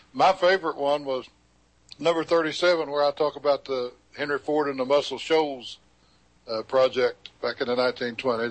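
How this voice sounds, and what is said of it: Southern rural hillbilly accent. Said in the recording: “this hillbilly accent”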